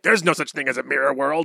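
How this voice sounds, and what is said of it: Good impression of anime character. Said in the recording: “That's a really good Kakyoin impression.”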